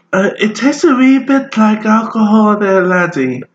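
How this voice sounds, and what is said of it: Put-on regional accent. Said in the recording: “Please stop that accent. ... That's offensive. ... Like that accent.”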